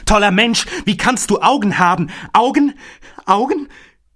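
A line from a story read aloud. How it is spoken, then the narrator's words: Horrified cry. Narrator (German): Entsetzt rief Nathanael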